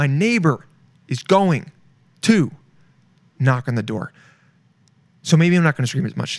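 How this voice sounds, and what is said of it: Usual voice. Nothing is said of it.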